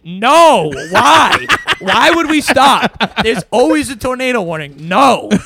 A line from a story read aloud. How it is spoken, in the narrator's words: these two girls are yelling unison